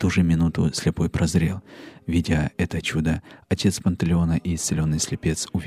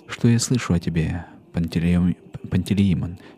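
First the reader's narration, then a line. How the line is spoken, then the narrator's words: Plain. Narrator (Russian): сказал он ему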